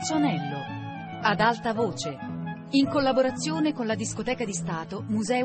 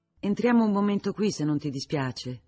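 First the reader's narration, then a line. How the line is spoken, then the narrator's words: Plain. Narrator (Italian): disse Kay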